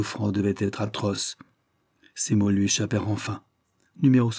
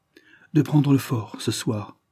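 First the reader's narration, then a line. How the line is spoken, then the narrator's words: Resolute male voice, sobbing. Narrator (French): dit-il d'un ton résolu, mais les sanglots reprenaient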